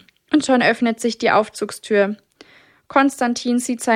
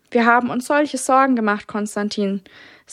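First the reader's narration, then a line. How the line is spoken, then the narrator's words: Plain, mother. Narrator (German): sagt seine Mama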